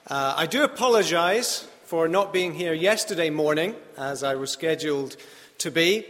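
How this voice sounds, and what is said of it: Slight non-native English accent. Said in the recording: “I do have a slightly funny accent, as you can tell”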